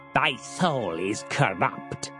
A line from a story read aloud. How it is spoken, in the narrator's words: said Harlan Steen, sneering with contempt